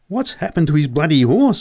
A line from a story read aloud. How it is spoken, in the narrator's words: I yelled at Joe